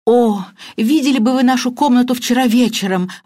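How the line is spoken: Exclaimed. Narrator (Russian): воскликнула мисс Баннер

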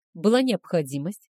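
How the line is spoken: Calm answer. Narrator (Russian): ответил он спокойно

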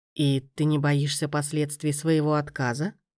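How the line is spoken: Quiet, menacing question. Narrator (Russian): Тихо и оттого страшно спросил

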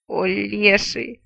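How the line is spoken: Groaning. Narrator (Russian): простонал он

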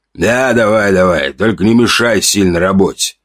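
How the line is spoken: Good-natured bass shout. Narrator (Russian): крикнул своим добродушным басом

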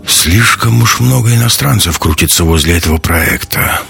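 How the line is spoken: Grumbled. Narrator (Russian): пробурчал Ковальский

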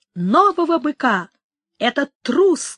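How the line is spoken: Crowd shouting. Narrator (Russian): кричал народ

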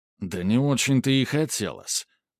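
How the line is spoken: Young man muttering. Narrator (Russian): пробормотал парень

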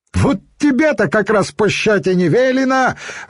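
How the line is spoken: Gleeful bellow from above. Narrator (Russian): радостно заорал сверху один из стражей, бородатый детина

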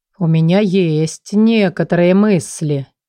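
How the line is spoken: Slow drawl. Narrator (Russian): медленно протянул он

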